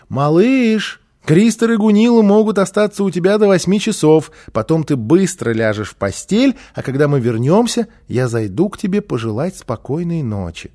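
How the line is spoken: Mother calling from hallway. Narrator (Russian): мама крикнула из прихожей

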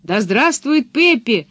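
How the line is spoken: Children shouting. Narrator (Russian): закричали ребята

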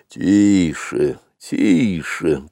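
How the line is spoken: Elephant's grumble. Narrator (Russian): пробурчал дикий слон Хатхи

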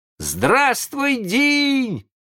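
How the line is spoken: Surprised boys shouting. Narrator (Russian): закричали удивленные мальчишки

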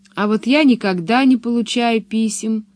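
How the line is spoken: Sad. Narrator (Russian): грустно сказала Пеппи

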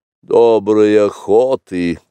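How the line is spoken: Grumbling. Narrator (Russian): проворчал, наконец, Каа

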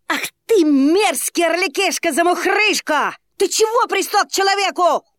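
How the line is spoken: Shouted. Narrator (Russian): крикнул

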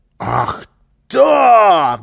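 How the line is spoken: Shouting. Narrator (Russian): закричал Карлсон

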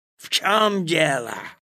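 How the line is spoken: Angry question. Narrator (Russian): злобно спросил он

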